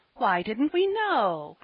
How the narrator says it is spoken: cried the children at last

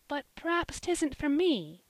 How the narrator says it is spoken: said Polly, timidly

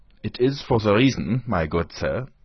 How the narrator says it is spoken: said he, speaking with a German accent

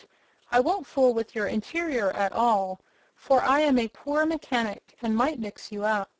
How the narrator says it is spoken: the Scarecrow kindly promised

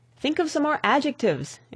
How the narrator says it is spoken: exclaimed the young man

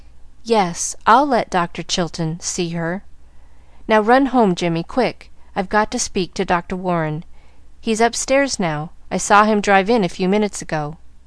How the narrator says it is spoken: she said brokenly

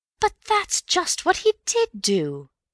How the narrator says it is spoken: cried Bill triumphantly

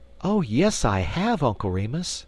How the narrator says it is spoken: exclaimed the young lady

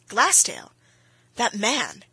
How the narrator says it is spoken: exclaimed Bryce

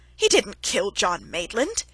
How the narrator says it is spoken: he cried angrily

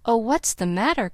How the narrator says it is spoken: cried Daisy anxiously

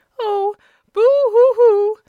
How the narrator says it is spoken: sobbed the woman, giving way to a fresh burst of grief

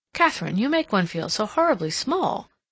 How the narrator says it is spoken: Cassandra exclaimed

